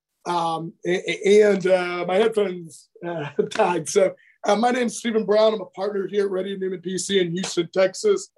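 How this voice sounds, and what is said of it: Scratchy voice. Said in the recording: “A little bit of allergies or whatever, so my voice is a little scratchy”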